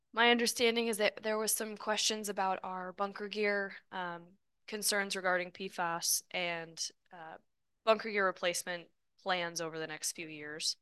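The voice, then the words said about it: Hoarse voice cutting in and out. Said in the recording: “I'm getting over a cold, so I apologize for my voice. It's a little in and out.”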